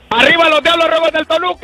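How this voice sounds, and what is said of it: Shouting loudly. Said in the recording (Spanish): “no grites, güey! ... ¡ ... no grites!”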